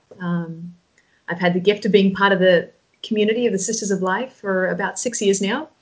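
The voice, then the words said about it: Australian accent. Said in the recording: “from Australia, Sydney, Australia. You probably picked up on my accent so far.”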